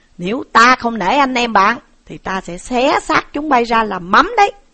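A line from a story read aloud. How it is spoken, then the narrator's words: Shouting. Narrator (Vietnamese): Trí Thầm quát bảo hai tên công sai rằng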